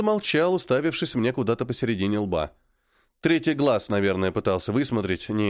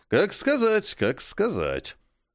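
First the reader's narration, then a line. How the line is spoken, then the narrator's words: Dreamy drawl. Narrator (Russian): мечтательно протянул он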